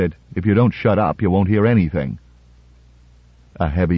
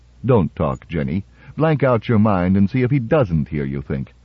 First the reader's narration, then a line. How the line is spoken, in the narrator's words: Berkowitz said dryly